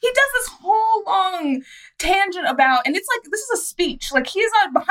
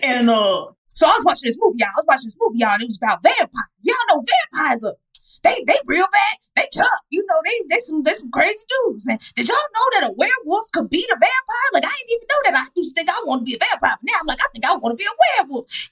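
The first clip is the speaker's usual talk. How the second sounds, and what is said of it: Imitates another person's voice. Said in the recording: “I wish this was a bad impression, but it's not.”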